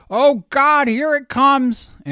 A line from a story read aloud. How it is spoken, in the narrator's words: A woman shouted